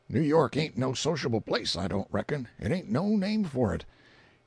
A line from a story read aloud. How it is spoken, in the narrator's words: he whispered to Colonel Jim